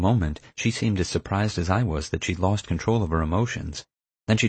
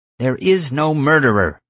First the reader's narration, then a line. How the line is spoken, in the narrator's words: Nina shouted